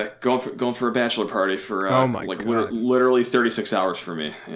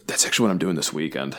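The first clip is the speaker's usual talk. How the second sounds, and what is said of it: Whispering. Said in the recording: “I'm going to whisper.”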